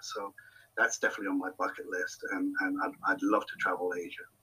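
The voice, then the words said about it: European accent. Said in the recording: “I, am all Europed out, as you can hear from my accent.”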